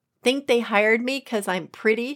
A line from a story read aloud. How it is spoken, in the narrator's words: she snaps